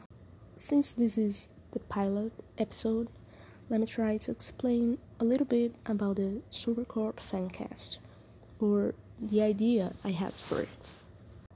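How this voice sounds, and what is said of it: Brazilian accent in English. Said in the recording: “I'm Brazilian, so obviously English is not my first language. And my accent is gonna be all over the place”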